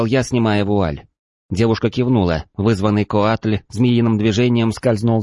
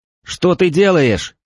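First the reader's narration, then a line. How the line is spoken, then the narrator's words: Shouted. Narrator (Russian): крикнул я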